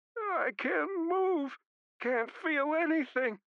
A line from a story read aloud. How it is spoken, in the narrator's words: Ortiz, who was whining like my dog Lily after she'd been shot, said